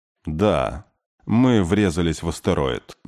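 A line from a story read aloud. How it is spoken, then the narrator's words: Gloomy. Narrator (Russian): мрачно сказал Кей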